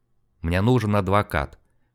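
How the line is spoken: Dejected mumble. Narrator (Russian): подавленно пробормотал Снегирев

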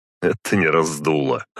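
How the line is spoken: Snorting. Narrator (Russian): хмыкнул я

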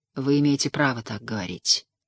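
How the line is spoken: Gloomy reply. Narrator (Russian): мрачно отозвался

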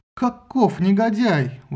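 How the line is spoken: Exclaimed. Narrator (Russian): воскликнула Гера

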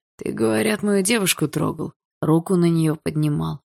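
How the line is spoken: Hoarse, furious question. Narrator (Russian): хрипло спросил Барс, чьи глаза затуманила ярость

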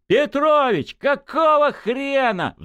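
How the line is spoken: Roar. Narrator (Russian): взревел Журавлев

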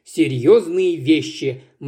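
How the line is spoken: Gloomy. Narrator (Russian): мрачно отозвался брат

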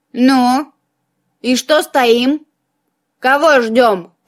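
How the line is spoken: Creaky skull voice. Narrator (Russian): проскрипел череп

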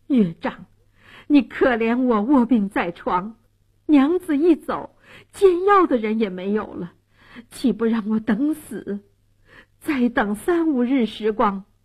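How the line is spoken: Desperate pleading. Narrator (Chinese): 蒋世龙苦苦哀求说

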